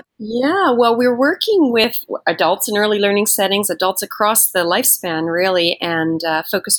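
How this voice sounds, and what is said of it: Canadian accent. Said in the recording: “in addition to her Canadian accent”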